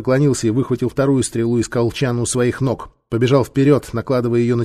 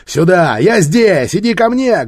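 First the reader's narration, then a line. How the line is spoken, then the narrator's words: Loud shout. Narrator (Russian): громко закричал Нефер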